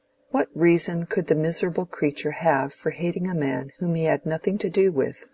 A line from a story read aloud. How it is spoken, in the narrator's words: said Mrs